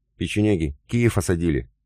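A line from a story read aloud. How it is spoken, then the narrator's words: Strained, little man. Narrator (Russian): выдавил из себя мужичок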